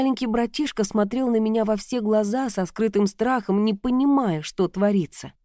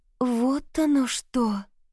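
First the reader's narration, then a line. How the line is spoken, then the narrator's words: Drawn out, sobbing hard. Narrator (Russian): Протянула Заряна и снова принялась рыдать изо всех сил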